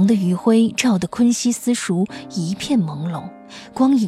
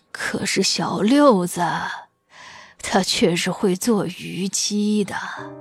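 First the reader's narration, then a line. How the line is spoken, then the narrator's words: Soft sighing voice. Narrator (Chinese): 轻轻叹了一声，道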